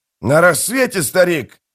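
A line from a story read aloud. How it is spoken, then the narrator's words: Warrior shouting. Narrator (Russian): прокричал один из воинов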